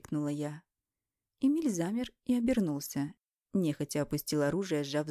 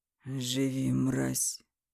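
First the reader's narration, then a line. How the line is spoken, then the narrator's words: Hoarse, spat out. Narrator (Russian): хрипло выплюнул он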